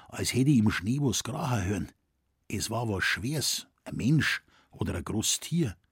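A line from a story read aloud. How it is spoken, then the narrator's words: Quiet. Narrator (German): sagte Schrenk leise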